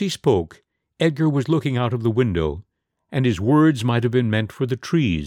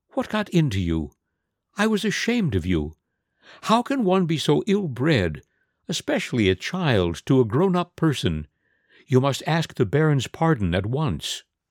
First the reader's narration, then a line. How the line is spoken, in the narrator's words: she began in the most motherly of tones